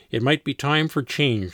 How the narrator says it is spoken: replied

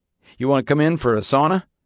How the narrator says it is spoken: Flatabow laughed

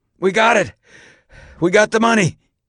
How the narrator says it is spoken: gasped

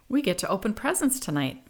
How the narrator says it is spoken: Marin excitedly exclaimed

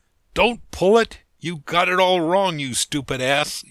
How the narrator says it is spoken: you shout

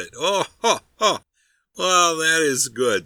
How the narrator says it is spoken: said the honest fellow, laughing heartily

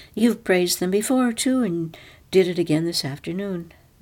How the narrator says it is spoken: Natalie said calmly

